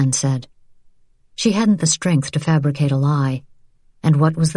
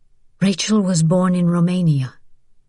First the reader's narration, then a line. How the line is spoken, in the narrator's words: Vianne said tightly